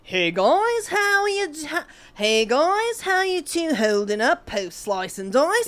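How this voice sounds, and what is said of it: Put-on Australian accent. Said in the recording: “Do it in the Australian accent,”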